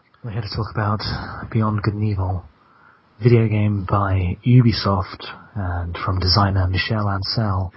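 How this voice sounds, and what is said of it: Smooth late-night radio host voice. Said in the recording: “It's your midnight radio voice. ... delivered in that kind of voice.”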